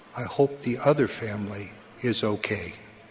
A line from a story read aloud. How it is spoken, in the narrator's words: his wife quietly said